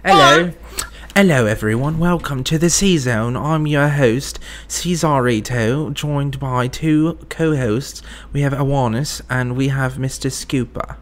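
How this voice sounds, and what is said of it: Put-on British accent. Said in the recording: “You can't be doing a British voice, man.”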